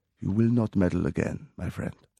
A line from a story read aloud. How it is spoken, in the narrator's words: A voice said, quietly, close up against his ear